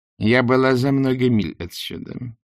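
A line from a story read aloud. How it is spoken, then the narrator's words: Plain. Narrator (Russian): ответила она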